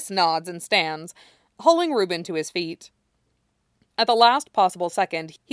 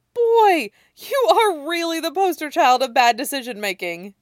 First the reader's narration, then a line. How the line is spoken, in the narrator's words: wheezes